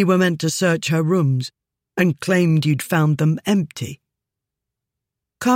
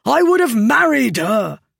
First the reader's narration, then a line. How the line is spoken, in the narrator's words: Kamran cried